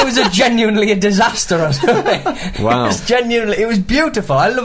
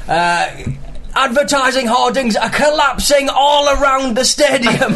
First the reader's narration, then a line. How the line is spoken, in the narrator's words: the excitement at them scoring in the final minute to go 4-3 up and just him shouting